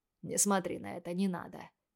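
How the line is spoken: Quiet. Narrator (Russian): тихо сказал Сайтон

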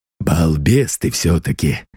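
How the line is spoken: Grumbling. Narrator (Russian): ворчал захребетник

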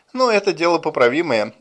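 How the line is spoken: Sighing, soothing. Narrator (Russian): вздохнув, успокоила его Ленора

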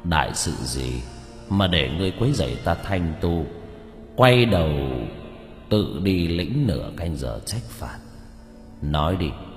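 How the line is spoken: Cold stern. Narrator (Vietnamese): đạo sĩ lạnh lùng

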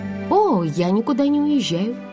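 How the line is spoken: Cheerful reply. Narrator (Russian): весело ответила

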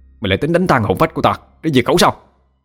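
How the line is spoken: Roaring. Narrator (Vietnamese): Nhân gầm lên

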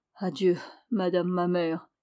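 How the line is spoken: Murmur. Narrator (French): murmura-t-il

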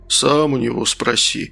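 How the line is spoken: Calm objection. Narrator (Russian): спокойно возразил ОМОНовец

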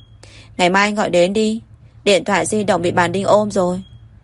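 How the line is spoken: Faint smile, calm. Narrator (Vietnamese): Tôn Đào Phi cười nhạt, chấn định tự nhiên nói

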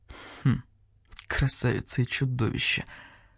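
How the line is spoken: Quiet speech. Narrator (Russian): тихо сказал барсук-старший

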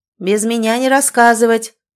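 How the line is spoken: Shouted from another room. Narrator (Russian): прокричал из кухни Димка

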